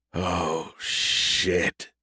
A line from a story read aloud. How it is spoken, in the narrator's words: he groaned